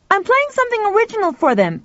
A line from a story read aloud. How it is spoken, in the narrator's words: Pal shouted back